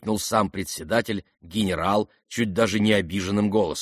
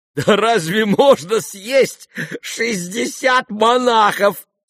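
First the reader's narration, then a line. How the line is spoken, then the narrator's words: Laughing crowd. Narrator (Russian): смеялись кругом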